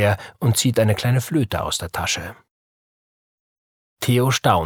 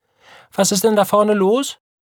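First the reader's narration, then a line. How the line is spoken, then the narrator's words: Calling out. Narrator (German): ruft Frau Krause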